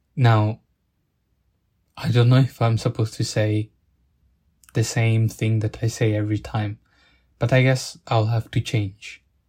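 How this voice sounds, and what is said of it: Italian accent. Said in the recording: “from my accent that it wasn't British, it wasn't English ... Italian”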